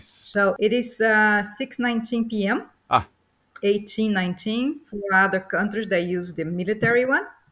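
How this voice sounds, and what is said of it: Brazilian Portuguese accent in English. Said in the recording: “listening to your accent ... I am originally Brazilian. So that's why you can detect the accent, even though I've been in the U.S. forever”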